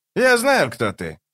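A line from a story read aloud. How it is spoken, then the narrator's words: Cheerful exclamation, short man. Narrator (Russian): весело воскликнул коротышка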